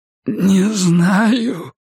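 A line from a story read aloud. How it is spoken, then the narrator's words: Hoarse wheeze. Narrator (Russian): просипел Рокки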